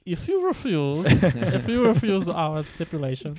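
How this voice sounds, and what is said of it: Put-on German accent. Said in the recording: “imagining in a German accent.”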